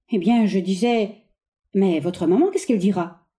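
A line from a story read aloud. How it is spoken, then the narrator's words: Quick and low. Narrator (French): Viviane, vivement et bas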